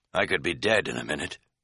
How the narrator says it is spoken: he said grimly

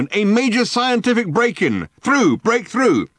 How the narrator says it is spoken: barked the megaphone

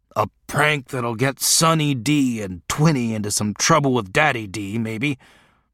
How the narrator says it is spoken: Tan said savagely

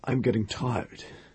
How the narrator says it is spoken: he said shakily

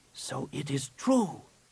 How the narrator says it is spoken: he whispered

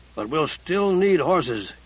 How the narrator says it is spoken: Casey growled

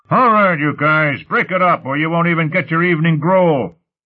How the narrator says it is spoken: A commanding voice from the end of the corridor shouted

